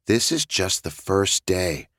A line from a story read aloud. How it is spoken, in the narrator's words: I whispered